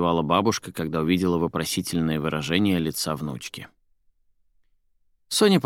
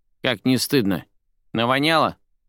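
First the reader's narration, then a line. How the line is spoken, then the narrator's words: Grumbling old woman. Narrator (Russian): заворчала баба Зина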